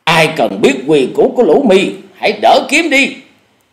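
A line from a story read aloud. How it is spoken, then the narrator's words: Shout. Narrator (Vietnamese): Cùng với tiếng quát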